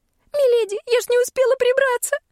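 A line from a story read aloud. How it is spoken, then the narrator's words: Shrill shriek. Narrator (Russian): взвизгнула Шерри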